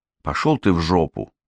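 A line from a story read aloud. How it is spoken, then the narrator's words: Muttered. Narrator (Russian): пробормотала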